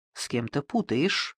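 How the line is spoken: Worried mutter. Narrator (Russian): озабоченно пробормотал посетитель

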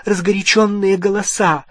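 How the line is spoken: Breathed out. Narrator (Russian): выдохнула миссис Уизли

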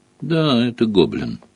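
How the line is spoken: Calm remark. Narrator (Russian): спокойно заметил Хагрид

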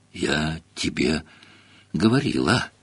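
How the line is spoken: Breathless exhale. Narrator (Russian): выдохнула Гермиона, держась обеими руками за грудь

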